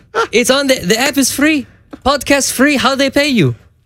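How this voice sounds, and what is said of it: Put-on accent imitating a father. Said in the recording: “My dad doesn't have an accent. It's just funnier for the story.”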